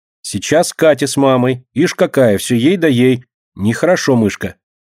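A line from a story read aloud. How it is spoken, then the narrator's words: Stern remark. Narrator (Russian): строго замечает и Алина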